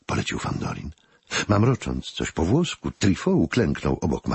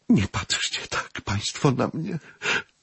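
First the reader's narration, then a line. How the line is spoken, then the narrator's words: Moan. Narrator (Polish): jęknęła madame Klebyer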